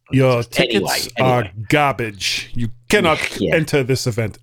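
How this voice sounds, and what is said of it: Put-on German accent. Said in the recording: “they speak in a German accent”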